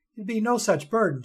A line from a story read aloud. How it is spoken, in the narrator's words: she stammered in defense